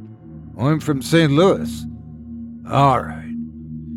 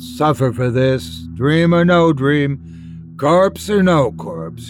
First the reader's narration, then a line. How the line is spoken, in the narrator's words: he groaned